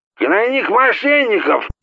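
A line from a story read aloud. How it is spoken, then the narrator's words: Yelling again. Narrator (Russian): снова заорал он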